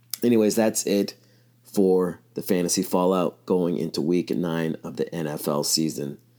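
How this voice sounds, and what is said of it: Slightly strained, throaty voice. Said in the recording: “Sorry about my voice... I wouldn't say hoarse, but dealing with some throat issues.”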